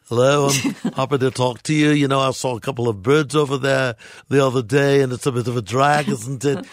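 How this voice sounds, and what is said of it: Put-on Liverpudlian accent. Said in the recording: “I'm going to go over to more of a Liverpudlian accent. ... I went from a posh Brit to a Liverpudlian ... I thought it was brilliant, and I think you're very good at doing that ... then you went to Liverpudlian”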